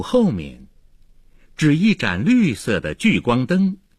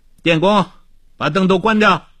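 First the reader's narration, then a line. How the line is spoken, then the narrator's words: Calling out. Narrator (Chinese): 他又叫道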